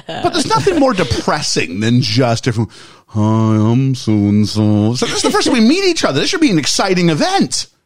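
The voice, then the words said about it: Gloomy, depressed Eeyore cartoon voice. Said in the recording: “that was a good impression of Eeyore”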